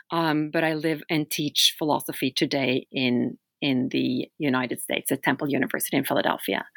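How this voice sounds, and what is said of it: Norwegian accent. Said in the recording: “As you can hear, I speak with an accent. I'm from Norway.”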